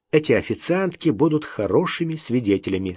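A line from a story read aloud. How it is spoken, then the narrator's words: Plain. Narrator (Russian): сказал он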